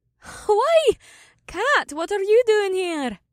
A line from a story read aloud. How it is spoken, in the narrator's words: May laughed